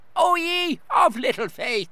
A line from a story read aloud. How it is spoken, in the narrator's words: bellowed